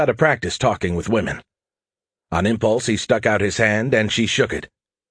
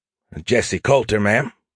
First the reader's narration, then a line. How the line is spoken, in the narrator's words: Jesse said graciously, his voice slightly unsteady